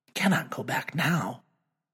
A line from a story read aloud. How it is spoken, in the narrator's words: He whispers aloud